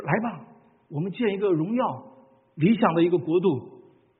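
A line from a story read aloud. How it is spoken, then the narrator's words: Many people shouting. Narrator (Chinese): 曾经有很多的人呼喊说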